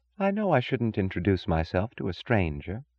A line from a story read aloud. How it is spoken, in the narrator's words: she said softly